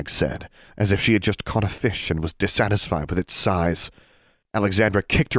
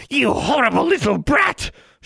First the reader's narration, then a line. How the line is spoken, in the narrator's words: screamed